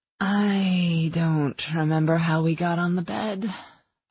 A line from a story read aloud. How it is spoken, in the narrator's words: I murmured, my voice throaty and near hoarse